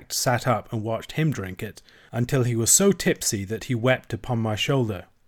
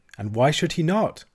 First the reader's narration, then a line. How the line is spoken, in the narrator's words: says he